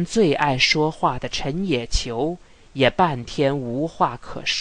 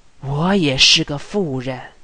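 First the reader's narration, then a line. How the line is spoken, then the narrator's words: Long sigh. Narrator (Chinese): 瑞轩长叹了一声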